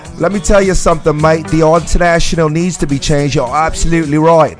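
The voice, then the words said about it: Bad put-on Australian accent. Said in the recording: “I'm like the worst Australian accent.”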